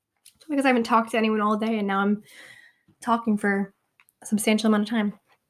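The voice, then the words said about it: Strained, fading voice. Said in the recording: “Oh my gosh, my voice. ... I'm like losing my voice.”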